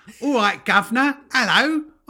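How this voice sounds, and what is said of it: Deliberately bad English accent. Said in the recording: “Don Cheadle's English accent. ... it's the worst English.”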